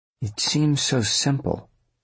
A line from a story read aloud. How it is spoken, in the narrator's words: Avery murmured